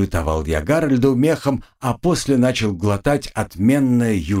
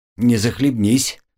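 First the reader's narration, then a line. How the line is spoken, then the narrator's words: Grumbling. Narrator (Russian): проворчал Карл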